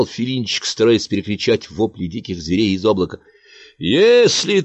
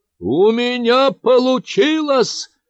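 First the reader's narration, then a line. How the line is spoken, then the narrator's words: Triumphant shout. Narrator (Russian): победоносно прокричал Филинчик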